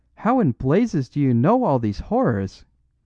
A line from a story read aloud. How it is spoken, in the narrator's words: cried Flambeau